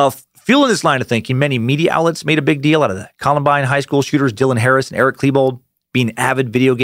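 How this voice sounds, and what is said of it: Usual voice. Nothing is said of it.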